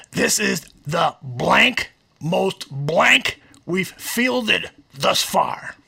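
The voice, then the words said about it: Poor impression of John Fox. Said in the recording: “that was a terrible John Fox impersonation.”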